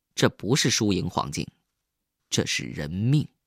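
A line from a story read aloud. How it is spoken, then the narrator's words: Cold reply. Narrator (Chinese): 冷冷的回了他一句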